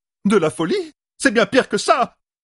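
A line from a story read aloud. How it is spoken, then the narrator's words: Shouted. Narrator (French): cria Faisel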